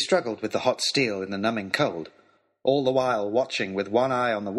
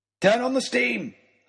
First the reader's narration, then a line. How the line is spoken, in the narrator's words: I shouted